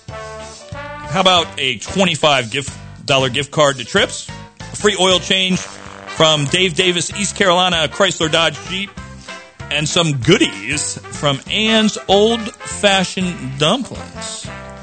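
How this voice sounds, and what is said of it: Game show host voice. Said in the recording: “I put on my game show voice.”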